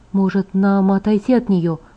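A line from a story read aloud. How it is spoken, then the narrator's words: Whisper. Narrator (Russian): прошептала я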